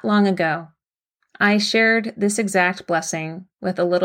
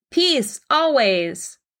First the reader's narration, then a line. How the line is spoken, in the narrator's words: shouted